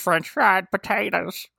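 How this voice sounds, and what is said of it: Sling Blade style voice impression. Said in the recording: “Do your brother Varner impersonation and put a little sling blade with it.”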